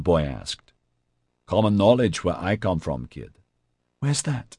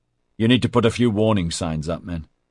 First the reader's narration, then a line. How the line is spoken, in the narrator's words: he said sharply